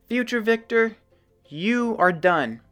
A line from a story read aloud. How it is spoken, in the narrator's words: bellowed